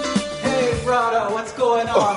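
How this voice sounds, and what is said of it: Weird fake Jamaican accent. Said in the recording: “That is the weirdest fake Jamaican accent.”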